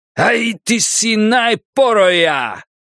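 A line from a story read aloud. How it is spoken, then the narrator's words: Shout. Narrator (Russian): крикнул он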